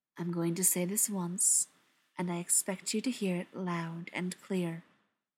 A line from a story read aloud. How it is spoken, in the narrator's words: Brendan said, his voice pitched soft enough that only the detective could hear